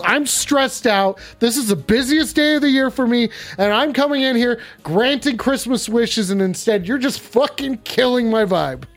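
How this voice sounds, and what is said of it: Yelling, angry rant. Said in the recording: “you're yelling at me.”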